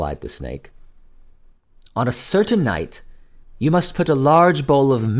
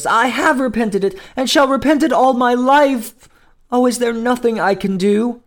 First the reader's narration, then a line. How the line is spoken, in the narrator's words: cried the poor princess